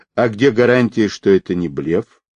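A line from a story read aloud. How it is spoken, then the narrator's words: Cold male question. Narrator (Russian): холодно спросил мужчина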